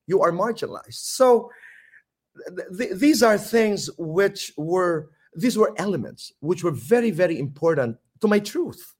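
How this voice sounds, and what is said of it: Filipino regional Samar accent. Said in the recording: “we have regional accent... Samar, we have a quaint Irish brogue. It's a quaint accent... I struggled about my accent”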